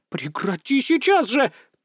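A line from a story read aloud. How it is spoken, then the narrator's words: Old woman's shrill yell. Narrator (Russian): тут же завопила бабка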